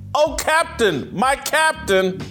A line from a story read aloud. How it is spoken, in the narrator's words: The boys staged an impromptu classroom insurrection, shouting